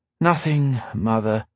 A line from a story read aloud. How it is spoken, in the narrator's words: she said, sighing